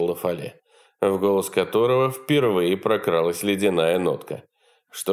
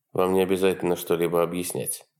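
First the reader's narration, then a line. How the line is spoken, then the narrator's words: Curt grumble. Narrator (Russian): буркнул Рамирес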